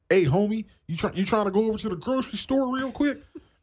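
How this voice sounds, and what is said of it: Exaggerated West Coast accent. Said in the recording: “that Ice Cube accent is real... It's like West Coast hillbilly.”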